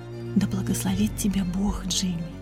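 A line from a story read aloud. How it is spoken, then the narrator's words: Whispering. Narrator (Russian): она прошептала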